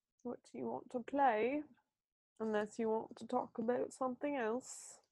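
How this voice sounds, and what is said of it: Put-on British accent, admittedly bad. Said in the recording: “I love your British accent... Oh, thank you. It's really bad.”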